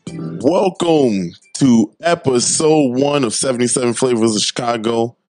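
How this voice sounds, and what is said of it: Voice cracks while speaking. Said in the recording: “my voice cracked right off the top”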